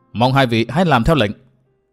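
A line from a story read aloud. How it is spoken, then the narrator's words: Stern voice. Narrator (Vietnamese): Từ Mã Minh nghiêm giọng nói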